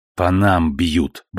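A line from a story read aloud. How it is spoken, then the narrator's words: Curt remark. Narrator (Russian): бросил Вандеркост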